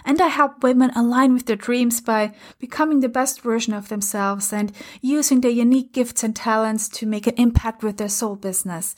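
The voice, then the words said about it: Austrian German accent. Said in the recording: “in case you're wondering why I have an accent, by the way, it's because I'm originally from, uh, from Austria ... my mother language is German”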